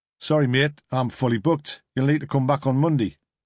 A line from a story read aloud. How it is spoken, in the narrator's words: said the mechanic, in a heavy Geordie accent